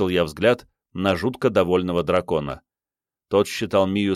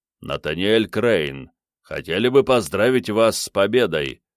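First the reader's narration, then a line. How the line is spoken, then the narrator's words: Deep bass, big warrior. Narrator (Russian): пробасил крупный воин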